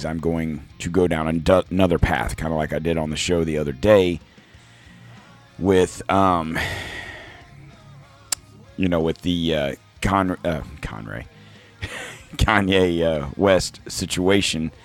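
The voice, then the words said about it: Strained, funky-sounding voice. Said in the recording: “my voice sounds a little funky. It's just, you know, throat issues ... my voice is taking a beating”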